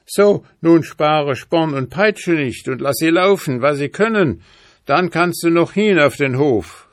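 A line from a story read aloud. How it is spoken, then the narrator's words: Lion calling out. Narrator (German): rief der Löwe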